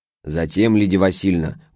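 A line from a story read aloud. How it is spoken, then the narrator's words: Deep bass voice. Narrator (Russian): густым басом отвечала Баранкина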